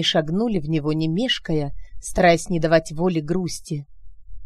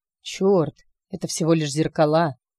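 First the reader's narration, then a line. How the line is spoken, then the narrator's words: Breathless exhale. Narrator (Russian): выдохнул Алекс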